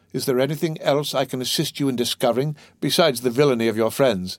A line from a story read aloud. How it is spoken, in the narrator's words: inquired the abbe with a laugh